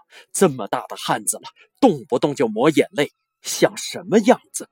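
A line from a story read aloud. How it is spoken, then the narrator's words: Annoyed. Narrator (Chinese): 她有些恼怒地说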